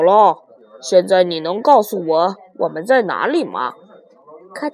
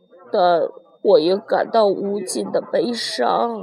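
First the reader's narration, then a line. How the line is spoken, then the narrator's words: Sighing. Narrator (Chinese): 叹气道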